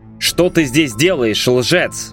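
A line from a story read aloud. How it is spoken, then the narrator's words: Growled. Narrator (Russian): рыкнул Брайан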